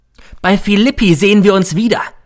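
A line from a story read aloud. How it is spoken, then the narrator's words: Called out. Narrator (German): rief er mir noch zu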